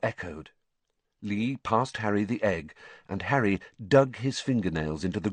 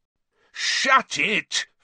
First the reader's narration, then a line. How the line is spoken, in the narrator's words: Fred bellowed